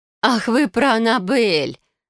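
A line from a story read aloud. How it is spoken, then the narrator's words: Feigned laugh, woman. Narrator (Russian): наигранно рассмеялась директриса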